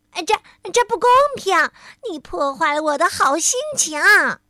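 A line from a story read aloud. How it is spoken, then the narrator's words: Annoyed shouting. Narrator (Chinese): 挠痒先生不高兴了，他嚷着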